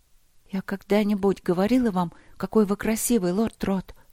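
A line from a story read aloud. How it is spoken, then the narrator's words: Asked in trembling voice. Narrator (Russian): спросила она дрожащим голосом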